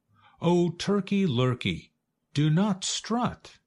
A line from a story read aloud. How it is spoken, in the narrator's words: cried Goosey Lucy